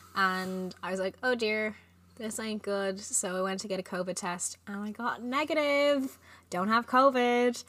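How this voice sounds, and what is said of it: Hoarse, sick-sounding voice. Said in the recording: “I was quite sick on the weekend ... my voice is still a little bit screwed”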